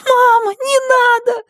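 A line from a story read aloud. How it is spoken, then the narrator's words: Scream. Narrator (Russian): закричала Рэйчел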